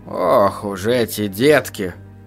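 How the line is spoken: Grumbling. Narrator (Russian): проворчал за спиной у Станислава Пьер Леруа

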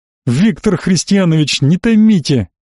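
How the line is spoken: Tipsy pleading. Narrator (Russian): буквально взмолился после второй рюмки капитан первого ранга Гаупт

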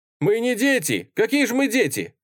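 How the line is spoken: Indignant group shouting. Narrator (Russian): возмущенно закричали кадеты

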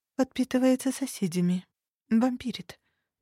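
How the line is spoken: Muttering. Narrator (Russian): пробормотала Лиля

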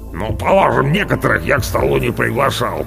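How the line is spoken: Grumbling. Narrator (Russian): проворчал Орвар, большое брюхо

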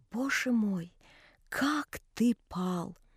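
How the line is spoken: Sister, terrible whisper. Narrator (Russian): сестра сказала ужасным шепотом

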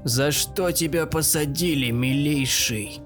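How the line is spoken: Hoarse voice. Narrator (Russian): Слышится хриплый голос

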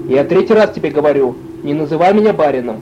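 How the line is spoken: Irritated. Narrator (Russian): раздраженно

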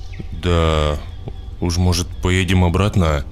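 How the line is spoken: Uncertain. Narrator (Russian): неуверенно произнесла жена

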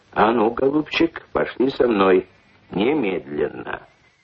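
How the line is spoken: Stern, menacing. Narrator (Russian): грозно сказал

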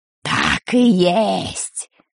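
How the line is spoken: Creaky voice. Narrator (Russian): проскрипела чума Дель Торт

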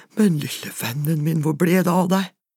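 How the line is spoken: Breathless whisper. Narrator (Norwegian): Han var så andpusten at han bare fikk hvisket

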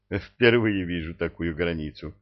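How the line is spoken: Laughing. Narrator (Russian): засмеялся

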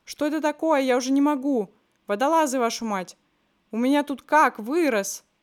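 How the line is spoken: Yelling. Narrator (Russian): Верхняя полка орал

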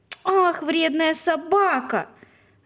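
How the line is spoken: Shouting. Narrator (Russian): закричала Женя

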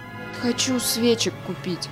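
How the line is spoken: Dejected voice. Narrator (Russian): упавшим голосом сказал

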